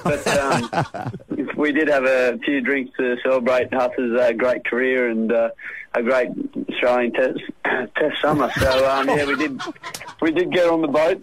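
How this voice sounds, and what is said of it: Rough, worn-out voice. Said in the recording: “You sound somewhat shabby, mate ... My voice is going a little bit”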